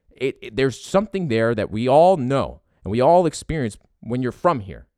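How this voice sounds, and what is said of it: Philadelphia accent. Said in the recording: “I came from Philadelphia. My family's from Philadelphia. ... You hear it in my voice.”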